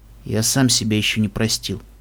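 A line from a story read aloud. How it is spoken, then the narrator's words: Quiet voice. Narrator (Russian): тихо сказал клубный блюститель нравственности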